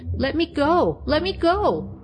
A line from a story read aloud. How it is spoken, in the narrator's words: she cried